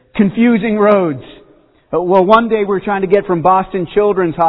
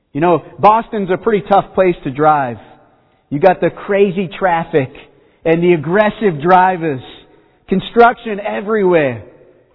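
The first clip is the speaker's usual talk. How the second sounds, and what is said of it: Put-on Boston accent. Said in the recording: “I couldn't help it with the accent there”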